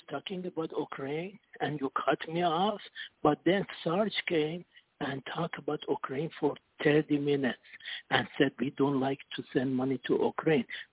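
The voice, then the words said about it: Accented speech, quiet phone line. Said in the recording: “Sometimes your phone is real low, and with your accent, it's a little bit hard to hear you”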